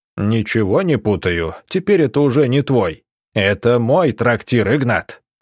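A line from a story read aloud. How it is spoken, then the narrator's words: Barked. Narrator (Russian): рявкнул Субботин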